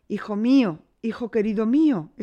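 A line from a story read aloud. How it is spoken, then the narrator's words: Grieving king exclaiming. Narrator (Spanish): exclamó el afligido monarca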